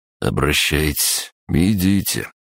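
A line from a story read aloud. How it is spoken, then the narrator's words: Resigned drawl. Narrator (Russian): обреченным голосом протянул Олесий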